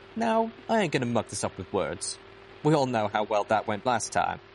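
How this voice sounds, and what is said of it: Character accent, earnest tone. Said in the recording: “The accent was very much like that of the voice I found on Velvet Remedy's pitbuck ... the earnest tone of the recording”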